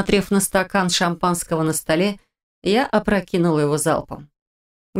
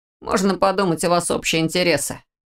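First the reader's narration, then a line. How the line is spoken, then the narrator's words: Dismissive snort. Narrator (Russian): обронил Орс, фыркнув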